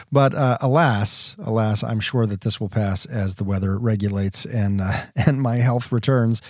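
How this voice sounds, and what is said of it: Deep resonant congested voice. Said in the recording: “allergy apocalypse ... keep this resonance ... the sore throat and the runny nose ... quintessential radio voice”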